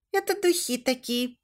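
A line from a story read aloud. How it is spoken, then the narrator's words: Squeak. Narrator (Russian): пропищала Алина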